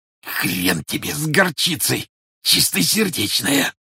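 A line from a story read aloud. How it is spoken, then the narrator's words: Hoarse wheeze. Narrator (Russian): просипел арестованный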